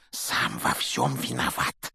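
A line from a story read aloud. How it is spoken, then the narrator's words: Heavy sigh. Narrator (Russian): тяжело вздохнул Рон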